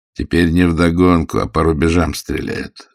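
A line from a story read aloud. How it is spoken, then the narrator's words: Plain. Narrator (Russian): сказал Пантелеев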